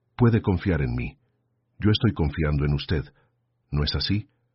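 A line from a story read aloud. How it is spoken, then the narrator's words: Low, measured voice. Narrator (Spanish): empezó a hablar con la voz baja y medida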